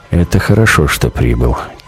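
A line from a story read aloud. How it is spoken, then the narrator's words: Quiet. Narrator (Russian): тихо говорит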